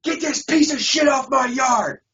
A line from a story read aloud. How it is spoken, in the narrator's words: He screamed